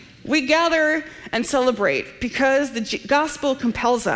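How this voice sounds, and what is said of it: Usual voice. Nothing is said of it.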